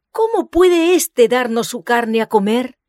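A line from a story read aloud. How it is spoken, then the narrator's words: Angry exclamation, rabbis. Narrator (Spanish): los rabinos exclamaron airadamente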